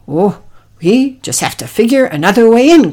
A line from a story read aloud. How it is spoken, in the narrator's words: grunted Oliver